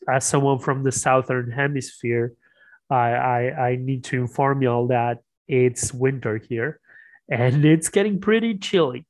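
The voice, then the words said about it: Raspy voice. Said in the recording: “my kind of raspy voice today ... I'm a bit of going through a bit of a cold”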